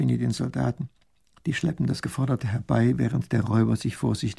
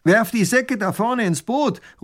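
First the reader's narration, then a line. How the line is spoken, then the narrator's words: Calling out. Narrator (German): ruft der Räuber tunlich gut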